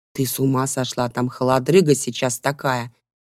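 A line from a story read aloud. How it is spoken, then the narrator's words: Hissing. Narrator (Russian): зашипела на нее Хлоя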